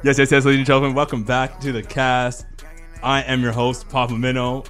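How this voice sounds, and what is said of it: Put-on radio host voice. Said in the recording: “that was my good radio voice... Good radio voice... It's like your Dave Chappelle white guy voice... It sounded like my white stepdad”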